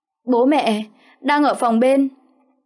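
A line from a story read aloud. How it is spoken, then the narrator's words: Panicked stammer. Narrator (Vietnamese): Kiều Chi hốt hoảng trợn mắt, lắp bắp nói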